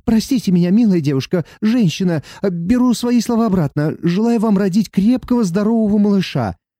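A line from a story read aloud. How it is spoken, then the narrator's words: Frightened hasty pleading. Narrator (Russian): Испуганный мужчина поспешно ... взмолился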